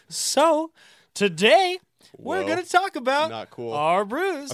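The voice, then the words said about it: Imitates another person's voice. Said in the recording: “my ... impression”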